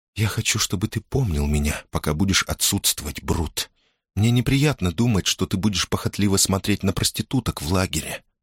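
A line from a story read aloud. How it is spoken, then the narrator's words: Whisper, woman. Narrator (Russian): прошептала она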